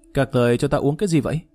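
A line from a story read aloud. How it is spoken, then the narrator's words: Frightened, in pain. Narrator (Vietnamese): Phía dưới đau nhức khiến cho y nhè răng nhếch miệng ... sợ hãi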